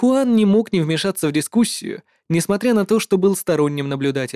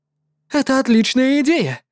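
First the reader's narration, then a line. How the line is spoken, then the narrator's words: Excited exclamation. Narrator (Russian): воскликнул виртуоз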